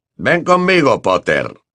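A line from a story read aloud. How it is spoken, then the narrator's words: Growling. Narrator (Spanish): gruñó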